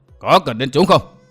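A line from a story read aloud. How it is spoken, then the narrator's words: Laughing loudly. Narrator (Vietnamese): Vô Ảnh Kiếm cười lớn nói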